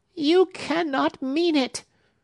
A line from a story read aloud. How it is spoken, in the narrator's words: shrieked Hepzibah